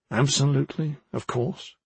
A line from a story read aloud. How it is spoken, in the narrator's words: Poblansky muttered